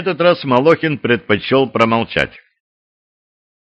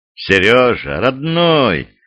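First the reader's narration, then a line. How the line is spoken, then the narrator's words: Sighing. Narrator (Russian): вздохнул Росин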